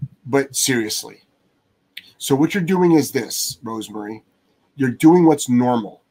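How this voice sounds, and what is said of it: Usual voice. Nothing is said of it.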